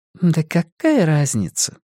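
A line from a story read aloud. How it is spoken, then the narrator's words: Sighing. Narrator (Russian): вздохнула Люми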